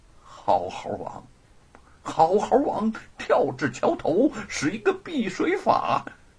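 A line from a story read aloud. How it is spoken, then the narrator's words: Calm muttering to himself. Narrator (Chinese): 神色平静 旁若无人的喃喃自语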